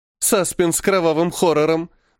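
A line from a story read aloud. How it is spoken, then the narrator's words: Ringing laughter. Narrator (Russian): Милена звонко рассмеялась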